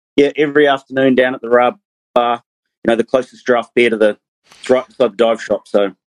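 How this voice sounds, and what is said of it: New Zealand accent. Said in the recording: “doesn't have a Fijian accent. That's a New Zealand accent. ... Kiwi.”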